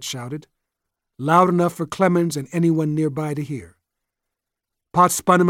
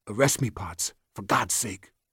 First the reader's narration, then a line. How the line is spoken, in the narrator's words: Jet muttered